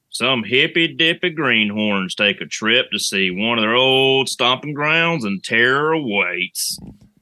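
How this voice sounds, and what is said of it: Put-on Texas accent. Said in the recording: “I'm going to do it in my Texas voice.”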